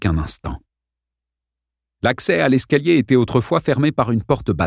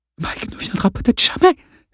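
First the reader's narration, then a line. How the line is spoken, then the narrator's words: Hissed. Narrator (French): siffla Arlène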